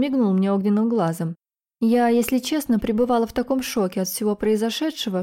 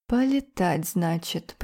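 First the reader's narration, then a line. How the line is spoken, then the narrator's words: Muttering. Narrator (Russian): Пробормотала я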